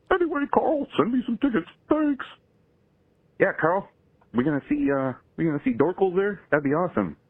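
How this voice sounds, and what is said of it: Put-on clown character voice. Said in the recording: “Dorkle's is not a real clown... It's just my buddy ... doing a voice.”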